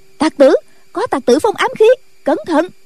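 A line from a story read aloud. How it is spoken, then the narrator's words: Women disciples crying out. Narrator (Vietnamese): Mấy nữ đệ tử phía trước cũng la lên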